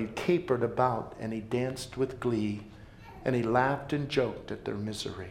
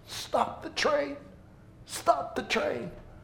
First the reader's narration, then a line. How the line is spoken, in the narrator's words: the passengers shrieked with pain and begged